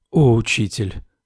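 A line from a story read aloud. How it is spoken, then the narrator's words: Whispering. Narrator (Russian): прошептала я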